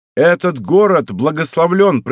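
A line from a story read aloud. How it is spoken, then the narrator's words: Loud statement. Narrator (Russian): произнес я громко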